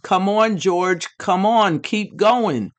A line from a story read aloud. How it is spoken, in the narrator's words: Ronnie yelled as loudly as he could